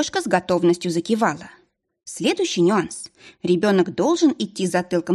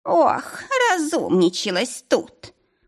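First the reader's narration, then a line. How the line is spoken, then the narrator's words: Old woman's snort. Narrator (Russian): Фыркнула бабулька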